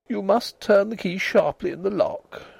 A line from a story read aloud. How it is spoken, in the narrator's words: she said weakly